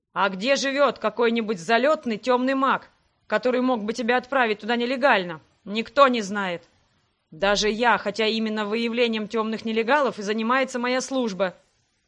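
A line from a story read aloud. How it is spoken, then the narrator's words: Barked, father. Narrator (Russian): рявкнул отец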